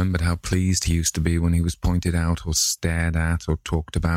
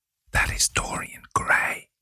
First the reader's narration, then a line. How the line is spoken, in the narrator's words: one of them whisper